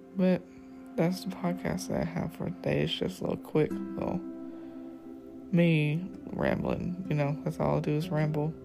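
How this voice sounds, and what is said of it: Tired-sounding voice. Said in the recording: “my voice sounds so tired. I am tired.”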